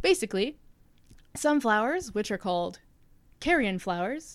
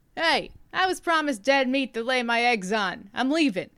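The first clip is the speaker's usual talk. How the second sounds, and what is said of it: Put-on New York accent. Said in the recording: “I don't know why I gave it a New York accent.”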